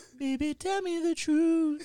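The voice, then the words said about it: Angelic singing voice. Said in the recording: “your voice is so angelic still. You haven't lost it a bit”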